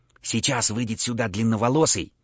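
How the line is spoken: Whispered. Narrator (Russian): зашептал Михайло

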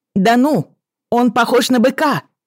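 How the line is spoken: Shouted reply. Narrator (Russian): крикнула в ответ

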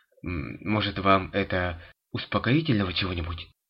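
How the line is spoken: Hesitant young medic. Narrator (Russian): неуверенно предложил молодой медик

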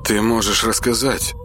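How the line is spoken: Soft, gentle. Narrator (Russian): мягко произнес Кай

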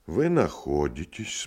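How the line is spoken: Calm doctor speaking. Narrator (Russian): спокойно заговорил врач

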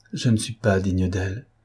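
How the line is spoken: Murmured. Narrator (French): murmura Pierre

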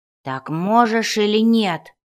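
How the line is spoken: Impatient dwarf roaring. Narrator (Russian): взревел дворф, уже начавший терять терпение

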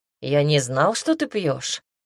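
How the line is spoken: Amused snort. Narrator (Russian): хмыкнул Теодор

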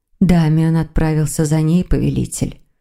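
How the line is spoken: Muffled, dull voice. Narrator (Russian): глухо проговорила Тамара

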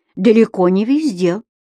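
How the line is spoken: Stern. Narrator (Russian): строго говорился Петр Горбидоныч

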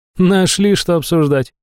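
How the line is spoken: Snorting. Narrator (Russian): фыркнула Эймер

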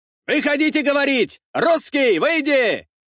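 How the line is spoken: Crowd shouting. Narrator (Russian): кричали у дворца

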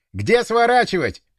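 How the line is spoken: Shouting over engine noise. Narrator (Russian): крикнул я, стараясь перекричать двигатель

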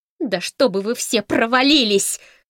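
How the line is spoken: Shout. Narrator (Russian): закричала Камила

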